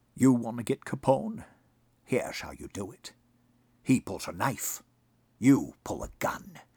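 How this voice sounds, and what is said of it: Sean Connery impression. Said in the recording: “do a great Sean Connery impression.”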